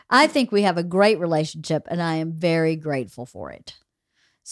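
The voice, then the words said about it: Southern American accent. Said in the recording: “I have a good Southern accent.”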